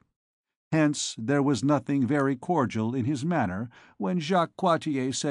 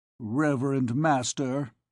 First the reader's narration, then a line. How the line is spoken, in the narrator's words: he said in a grave tone